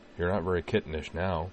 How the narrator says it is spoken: he said

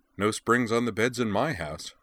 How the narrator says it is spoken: she said

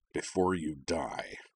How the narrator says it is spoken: growled

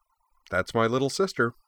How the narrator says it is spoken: Yui agreed cheerfully

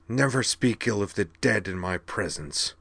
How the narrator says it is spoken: snarled the Dantrovi in a voice that was barely recognizable as her own

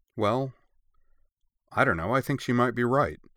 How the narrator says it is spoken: Jun said

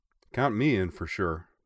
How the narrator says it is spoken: Akashi said

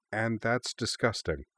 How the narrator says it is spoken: said Mio, her voice working on autopilot as disused memories lit back up

